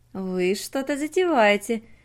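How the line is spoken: Cheerful exclamation, queen. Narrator (Russian): весело воскликнула королева

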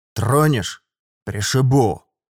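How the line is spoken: Sudden outburst, abruptly cut off. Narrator (Russian): Выдал вдруг я и тут же резко осекся

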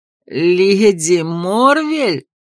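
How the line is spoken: Groan. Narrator (Russian): Ларри застонал

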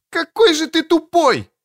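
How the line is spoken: Shout. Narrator (Russian): закричала Кэтрин

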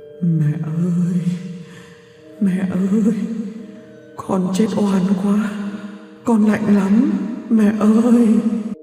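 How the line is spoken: Moaning, plaintive. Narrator (Vietnamese): Quốc rên rỉ nói

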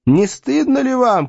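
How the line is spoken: Shouting at soldiers. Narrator (Russian): кричал Дебраси своим солдатам

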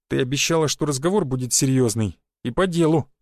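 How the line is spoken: Wry snort. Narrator (Russian): хмыкнул я

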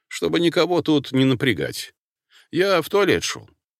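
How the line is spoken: Confident clipped words. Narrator (Russian): уверенно отчеканил я

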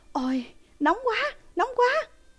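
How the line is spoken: Screaming in pain. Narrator (Vietnamese): Cái xác miệng gào thét

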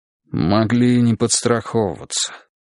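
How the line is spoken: Muttered. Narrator (Russian): буркнул Переверзев

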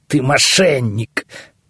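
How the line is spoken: Through gritted teeth. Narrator (Russian): процедил беглый первосвященник

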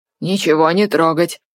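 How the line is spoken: Angry warning. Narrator (Russian): Сердито предупредил он

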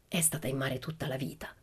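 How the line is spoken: Whispering. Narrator (Italian): sussurrò la maestra alla mamma di Ulla

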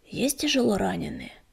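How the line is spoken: Hoarse rasp. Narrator (Russian): прохрипел он

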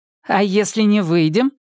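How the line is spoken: Loud question. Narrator (Russian): громко спросила Яна

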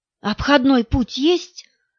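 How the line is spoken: Whisper. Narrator (Russian): прошептала Агния

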